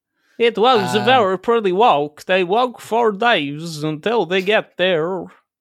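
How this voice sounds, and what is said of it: Generic hard-to-place European accent. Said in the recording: “That was like a European. ... it's my generic, like, hard to place accent. ... I could still hear Christopher Walken in that.”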